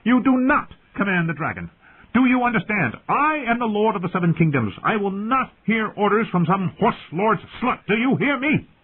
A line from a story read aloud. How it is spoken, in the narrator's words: He was still screaming